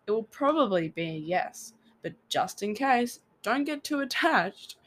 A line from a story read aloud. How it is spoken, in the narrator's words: Brambleheart chuckled